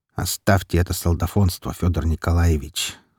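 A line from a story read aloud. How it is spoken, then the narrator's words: Calm. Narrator (Russian): спокойно сказал фюрер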